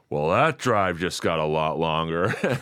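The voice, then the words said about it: Imitates another person's voice. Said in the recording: “I don't do a good Brody impression, but I'll give it a shot.”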